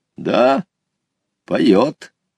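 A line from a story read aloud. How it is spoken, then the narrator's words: Calm, old man. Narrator (Russian): спокойно ответил дедушка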